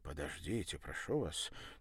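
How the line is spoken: Quiet pleading. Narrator (Russian): тихо попросил француз

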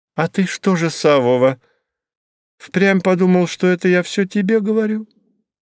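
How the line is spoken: Innocent tone. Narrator (Russian): поинтересовалась она невинным голосом

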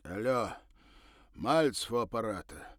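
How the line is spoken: Loud husky voice, phone. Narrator (Russian): раздался в трубке зычный с хрипотцой голос

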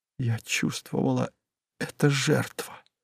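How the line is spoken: Barely audible. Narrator (Russian): едва слышно выговорила она

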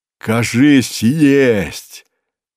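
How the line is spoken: Voluptuous moan from above. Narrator (Russian): сладострастно простонал он сверху

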